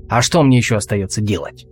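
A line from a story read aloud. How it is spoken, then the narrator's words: Snapping retort. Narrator (Russian): огрызнулся Алвис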